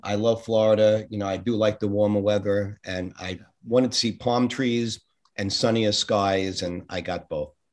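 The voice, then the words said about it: New York accent. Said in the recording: “as you can tell from the accent, it wasn't Kansas. I was born in Brooklyn and moved to Queens”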